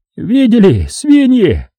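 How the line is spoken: Shrill squealing voice. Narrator (Russian): слышен был визгливый голос

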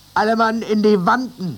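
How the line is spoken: Mate's call. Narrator (German): rief der Maat

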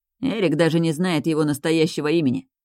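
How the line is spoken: Snorting, mimicking. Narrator (Russian): фыркнул он, передразнив

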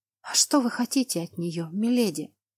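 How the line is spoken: Mouthed whisper. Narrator (Russian): одними губами прошептала

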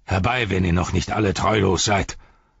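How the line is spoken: Called out. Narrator (German): rief er seinen Dienern zu

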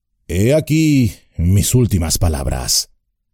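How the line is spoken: Low voice. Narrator (Spanish): dijo en voz baja

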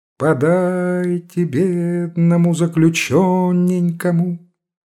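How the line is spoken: Laughing sing-song. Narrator (Russian): Она смеющимся свежим лицом говорила нараспев

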